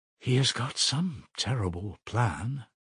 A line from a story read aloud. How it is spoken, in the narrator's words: she said in a half-whisper to herself, almost shuddering